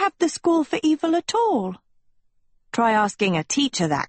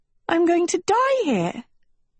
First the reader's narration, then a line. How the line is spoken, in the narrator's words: Sophie squeaked, eyes welling